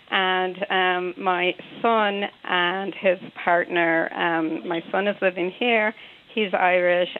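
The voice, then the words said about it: American accent. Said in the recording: “I have an American accent.”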